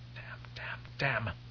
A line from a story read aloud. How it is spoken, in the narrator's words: Taraza muttered